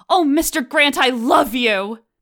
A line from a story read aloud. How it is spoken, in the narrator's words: blurt out